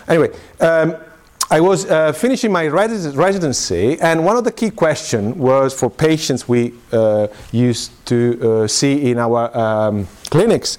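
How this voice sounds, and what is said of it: Italian-accented English. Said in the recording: “I'm Italian, by the way. I'm sure you can pick up my terrible English and accent.”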